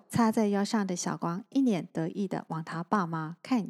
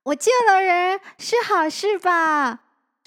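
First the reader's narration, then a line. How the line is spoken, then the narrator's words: Smiling. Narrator (Chinese): 他微笑着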